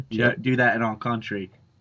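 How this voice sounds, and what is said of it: Put-on Australian accent. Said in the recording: “Real nice Australian accent there.”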